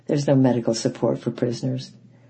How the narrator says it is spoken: the soldiers, they just laughed and said

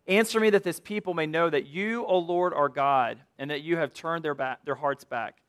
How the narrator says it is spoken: cries out

